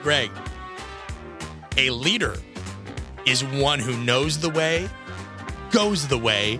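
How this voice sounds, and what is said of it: Usual voice. Nothing is said of it.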